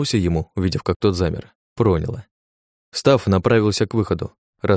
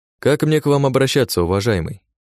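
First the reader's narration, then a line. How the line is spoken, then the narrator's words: Plain. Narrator (Russian): спросил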